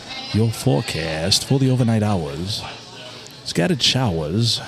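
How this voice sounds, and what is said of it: Drawn-out meteorologist John McMurray impression. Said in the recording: “He draws things out. ... do a good impression?”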